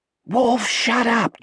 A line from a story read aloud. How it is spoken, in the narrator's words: Jack hissed